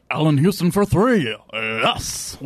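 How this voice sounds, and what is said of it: Poor Marv Albert impression. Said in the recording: “That's the drunk guy on The Simpsons... Peter Griffin... Marv Albert... that was horrible”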